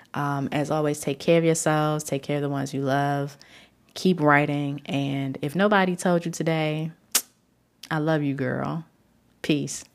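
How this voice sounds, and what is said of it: Unwell, under-the-weather voice. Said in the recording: “Pardon my voice. I'm very under the weather at the moment”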